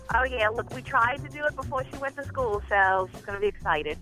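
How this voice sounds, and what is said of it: Louisiana accent. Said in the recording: “What part of Louisiana are you in? ... I knew that accent.”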